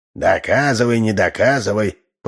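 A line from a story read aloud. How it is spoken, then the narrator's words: Grumbling. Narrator (Russian): проворчал Ложкин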